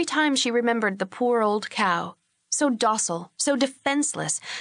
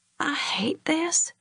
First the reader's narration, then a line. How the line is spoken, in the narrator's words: murmured against his chest